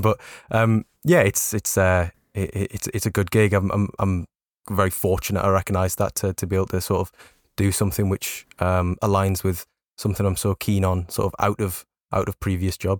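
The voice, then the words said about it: Newcastle English accent. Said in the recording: “we briefly spoke about Newcastle there... People might detect the accent”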